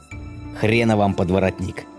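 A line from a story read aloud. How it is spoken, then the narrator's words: Angry growl. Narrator (Russian): злобно зарычал я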